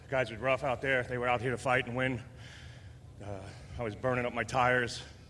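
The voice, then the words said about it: Out of breath. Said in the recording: “I'm out of breath, actually.”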